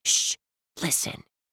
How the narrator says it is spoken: she hissed

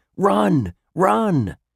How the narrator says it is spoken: The crowd leaped to its feet, yelling

